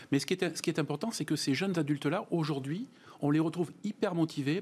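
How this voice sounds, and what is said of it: Slight regional French accent. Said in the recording (French): “À Périgueux, avec le petit accent que vous avez d'ailleurs”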